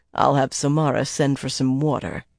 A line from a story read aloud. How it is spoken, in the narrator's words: he said dryly